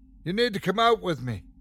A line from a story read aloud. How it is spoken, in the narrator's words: he shouted over the storm